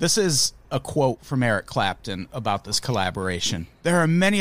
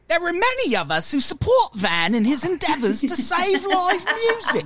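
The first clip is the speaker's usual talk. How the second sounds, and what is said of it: Put-on British accent. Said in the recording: “Gotta do it with the British accent.”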